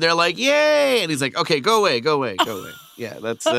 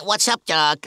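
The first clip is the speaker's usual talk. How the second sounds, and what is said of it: Bugs Bunny cartoon voice. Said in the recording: “my dad does Bugs Bunny? ... do the voice.”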